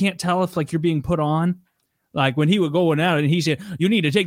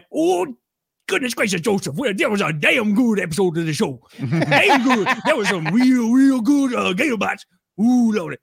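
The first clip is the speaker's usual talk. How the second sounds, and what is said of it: Put-on Cajun accent. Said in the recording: “I like that Cajun accent.”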